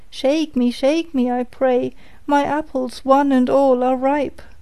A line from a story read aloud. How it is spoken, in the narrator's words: it cried